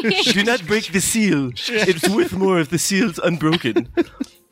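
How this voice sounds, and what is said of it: Put-on German accent. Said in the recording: “That is my German accent”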